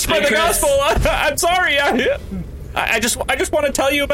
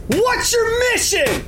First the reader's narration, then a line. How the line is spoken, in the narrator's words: yell